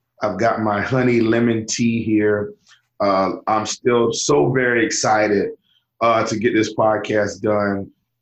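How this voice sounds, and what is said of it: Slightly scratchy, hoarse voice. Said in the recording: “my voice is just a little bit scratchy ... Just a little bit hoarse”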